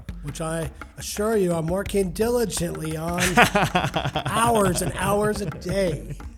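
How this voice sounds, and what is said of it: Imitates another person's voice. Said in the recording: “that's my John Lovitz impersonation.”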